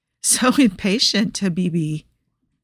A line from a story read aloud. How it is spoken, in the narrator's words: laughed softly